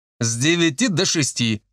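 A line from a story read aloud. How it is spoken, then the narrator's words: Snorted. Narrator (Russian): фыркнул Женька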